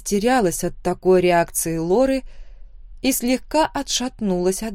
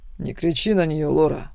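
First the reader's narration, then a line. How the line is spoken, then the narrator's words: Icy cold voice. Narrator (Russian): произнес он ледяным голосом, в котором не было ни капли тепла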